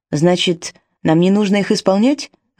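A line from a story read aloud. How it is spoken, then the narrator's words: Snapped retort. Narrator (Russian): огрызнулся Джейми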